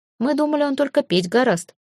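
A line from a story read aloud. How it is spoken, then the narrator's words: Smirking snort. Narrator (Russian): хмыкнул искрец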